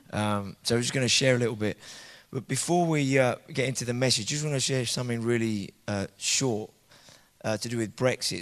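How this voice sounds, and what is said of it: Dodgy, weak voice just returning. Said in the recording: “my voice has been a bit dodgy. I haven't had one the last 2 days. It's only kind of come back today”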